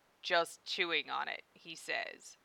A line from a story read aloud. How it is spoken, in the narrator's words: Jinpachi muttered